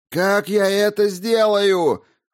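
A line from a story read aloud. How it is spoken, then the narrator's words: Near shout. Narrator (Russian): хотел было закричать он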